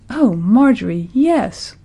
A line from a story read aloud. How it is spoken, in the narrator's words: cried Bernice